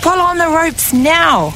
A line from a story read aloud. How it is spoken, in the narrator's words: Maui yelled to his brothers